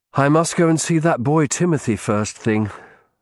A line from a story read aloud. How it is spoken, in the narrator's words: I said wearily